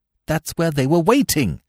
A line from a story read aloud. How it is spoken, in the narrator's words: I cried excitedly